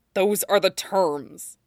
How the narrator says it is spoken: Zuko said harshly

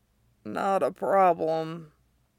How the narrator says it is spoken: Derek croaks

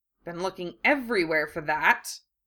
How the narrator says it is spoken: Ron muttered, glowering

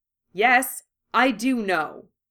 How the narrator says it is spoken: he said sharply

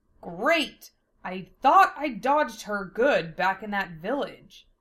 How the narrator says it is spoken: Lena growled

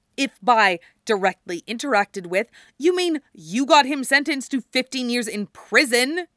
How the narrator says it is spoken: Ruben snaps

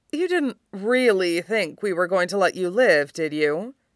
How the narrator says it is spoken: Peter drawls

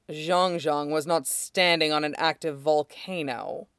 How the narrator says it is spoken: Shidon said dryly

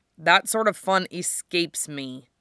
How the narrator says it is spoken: Wufei growled

